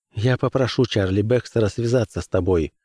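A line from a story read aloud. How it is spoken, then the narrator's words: Worried promise. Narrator (Russian): пообещала обеспокоенным тоном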